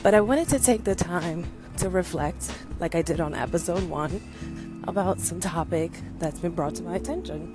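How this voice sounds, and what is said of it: Out of breath speaking voice. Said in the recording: “why is this girl out of breath? I'm out of breath”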